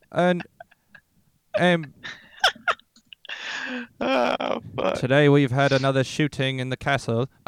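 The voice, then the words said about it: Attempted British accent drifting Australian. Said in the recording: “Oh, I'm going Australian already.”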